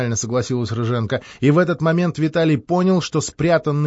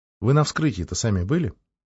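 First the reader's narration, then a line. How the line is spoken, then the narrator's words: Innocent tone. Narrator (Russian): спросил он невинным тоном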